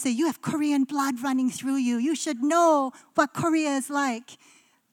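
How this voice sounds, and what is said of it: Poorly imitated Korean accent. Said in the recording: “That's such a bad Korean accent.”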